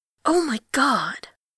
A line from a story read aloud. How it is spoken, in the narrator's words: Jaehyun hisses